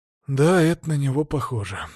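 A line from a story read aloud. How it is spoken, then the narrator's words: Sighing mutter. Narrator (Russian): вздохнул, пробормотав себе под нос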